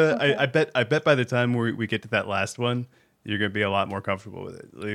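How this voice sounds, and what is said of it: Usual voice. Nothing is said of it.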